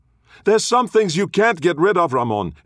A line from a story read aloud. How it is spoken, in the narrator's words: his sister yelled